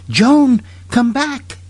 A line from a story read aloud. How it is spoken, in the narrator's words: suddenly Kate cried, terror-stricken